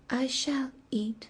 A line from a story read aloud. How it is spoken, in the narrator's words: said softly